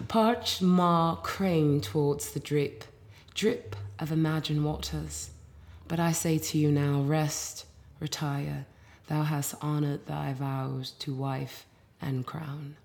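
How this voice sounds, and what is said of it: Put-on English accent. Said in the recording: “I should England ... this is actually fitting for an English accent.”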